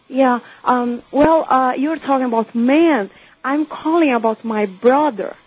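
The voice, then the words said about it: Brazilian accent in English. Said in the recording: “I'm from Brazil. I'm sorry about my accent.”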